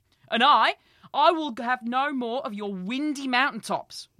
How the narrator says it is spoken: roared Njord beside himself with rage

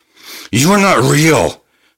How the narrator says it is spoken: the dollmaker screamed

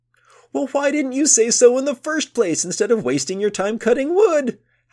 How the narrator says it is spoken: howled Boya, and he again collapsed in gales of laughter

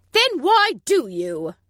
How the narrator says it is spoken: spat

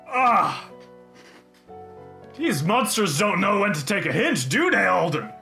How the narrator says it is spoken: Ak lets out a grunt and says

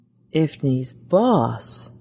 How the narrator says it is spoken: murmured aloud, amazed at what the great machine seemed to be offering

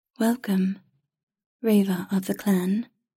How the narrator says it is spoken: said in a smooth, melodic voice that was not quite a man's nor a woman's

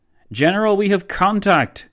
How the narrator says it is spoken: boomed one of von Leto Vorbeck's forward soldiers

